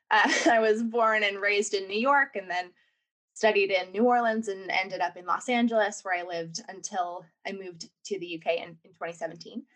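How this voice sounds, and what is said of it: American accent. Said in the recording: “I'm clearly, from my accent, American.”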